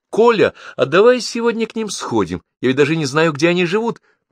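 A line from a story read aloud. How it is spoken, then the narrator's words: Forced lively. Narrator (Russian): она сказала подчеркнуто оживленным голосом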